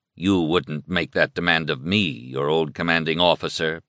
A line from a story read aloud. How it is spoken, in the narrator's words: Beck said quietly